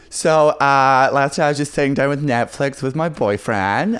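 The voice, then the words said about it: Put-on female American accent. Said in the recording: “you do an American accent ... I can only do female American accent”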